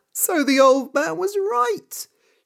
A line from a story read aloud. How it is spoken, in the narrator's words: she said, and laughed